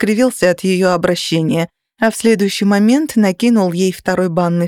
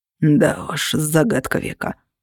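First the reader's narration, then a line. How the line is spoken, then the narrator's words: Wry snort. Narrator (Russian): хмыкнул я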